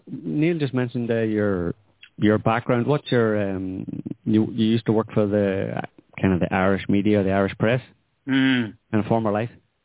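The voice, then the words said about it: Northern Irish accent. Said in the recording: “I have a more northern accent than Neil. Neil's a southern one.”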